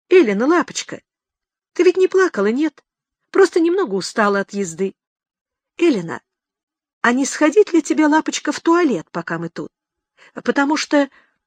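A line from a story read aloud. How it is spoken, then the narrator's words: Cheerful. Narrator (Russian): он снова пригнулся к окошку и весело сказал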